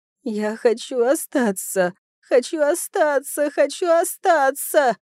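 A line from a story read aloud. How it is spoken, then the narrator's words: Spirit wailing. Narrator (Russian): взвыл дух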